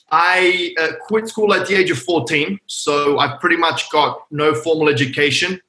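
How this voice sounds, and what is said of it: Australian accent. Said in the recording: “Originally from Sydney, Australia, just in case the folks can't tell by the accent.”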